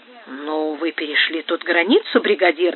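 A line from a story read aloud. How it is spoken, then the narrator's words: Displeased tone. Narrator (Russian): недовольным тоном сказал Топете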